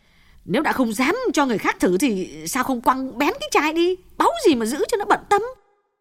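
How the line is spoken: Irritable snap. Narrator (Vietnamese): Như lại gắt

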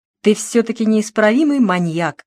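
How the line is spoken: Woman laughing. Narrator (Russian): засмеялась женщина

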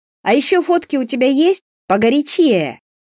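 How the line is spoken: Deliberately loud shouting. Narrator (Russian): намеренно громко выкрикивая

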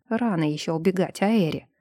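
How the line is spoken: Grumbled. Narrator (Russian): проворчал Тесиль

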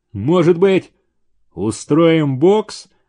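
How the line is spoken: Gloomy question. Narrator (Russian): мрачно спросил Столбов

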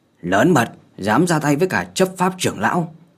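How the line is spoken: Old man shouting. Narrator (Vietnamese): Một lão già lập tức hét lớn

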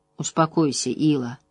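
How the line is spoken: Soft speech. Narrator (Russian): мягко сказал Райн

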